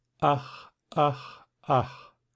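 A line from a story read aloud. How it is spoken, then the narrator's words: Repeated sighing. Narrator (German): seufzte einmal übers andere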